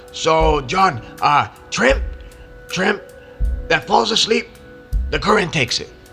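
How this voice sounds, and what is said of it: Mexican-accented English. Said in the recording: “I'm Mexican. I can use this accent.”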